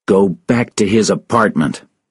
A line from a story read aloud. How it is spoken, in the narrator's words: said angrily